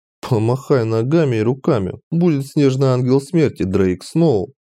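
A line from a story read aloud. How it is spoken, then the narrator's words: Nervous giggle. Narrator (Russian): нервно хихикнул я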